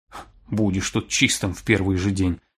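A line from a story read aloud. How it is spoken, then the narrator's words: Grumbling. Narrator (Russian): проворчал Аурел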